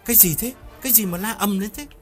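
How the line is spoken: Snapping irritated question. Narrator (Vietnamese): Hiếu gắt lên hỏi

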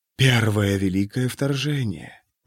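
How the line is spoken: Whisper. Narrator (Russian): прошептал голос Келмайна

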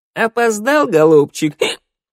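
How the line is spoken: Giggling. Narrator (Russian): Хихикнула Шныряла

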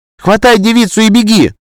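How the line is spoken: Shout. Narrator (Russian): крикнула она

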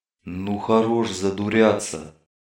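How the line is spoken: Sudden deep bass. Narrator (Russian): неожиданно пробасил кто-то

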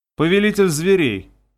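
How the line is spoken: Gloomy, grim. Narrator (Russian): мрачно повторила Алона

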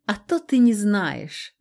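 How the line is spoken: Mocking snort. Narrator (Russian): Насмешливо хмыкнула

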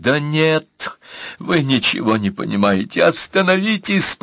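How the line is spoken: Moaning. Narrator (Russian): простонал Виктор

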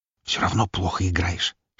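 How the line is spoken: Whisper. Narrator (Russian): шепнул я

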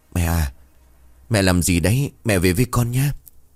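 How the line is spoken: Gentle question. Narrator (Vietnamese): Lành khẽ hỏi

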